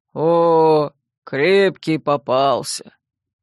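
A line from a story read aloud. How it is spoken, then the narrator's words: Cheerful booming voice. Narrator (Russian): Как-то даже радостно прогудел Илья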